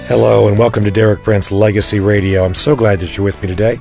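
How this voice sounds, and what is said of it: Raspy, strained voice. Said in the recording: “Apologize for my raspy voice. ... I've got a little voice strain”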